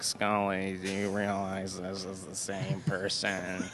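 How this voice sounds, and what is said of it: Imitates another person's voice. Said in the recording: “your Dana Duchovny impression? ... Yep.”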